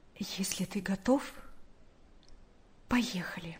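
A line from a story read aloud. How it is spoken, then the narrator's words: Quiet. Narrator (Russian): Наташа тихо сказала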